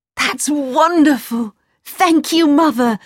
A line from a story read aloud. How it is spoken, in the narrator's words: cried